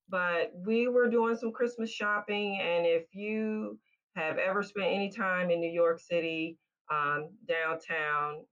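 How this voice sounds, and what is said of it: Southern American twang. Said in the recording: “even with a Southern twang, I'm still a native New Yorker.”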